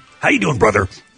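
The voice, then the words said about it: Imitates another person's voice. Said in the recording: “does a new impression ... does the Hulkster.”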